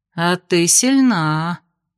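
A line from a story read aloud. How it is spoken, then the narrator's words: Drawling, appraising. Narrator (Russian): протянула подошедшая Ада, оценивающая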